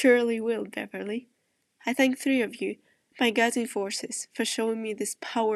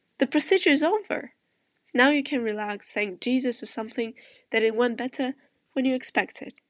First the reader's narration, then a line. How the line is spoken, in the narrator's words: tells cheerfully